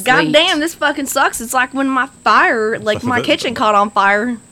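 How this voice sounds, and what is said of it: Imitates another person's voice, attempted Scranton accent. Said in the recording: “I can't even do a Scranton accent either”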